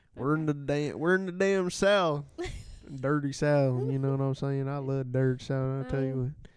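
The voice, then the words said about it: Put-on Southern country accent. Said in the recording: “I thought you were talking like Forrest Gump ... like Lieutenant Dan without the lieutenant part ... I'm just speaking country.”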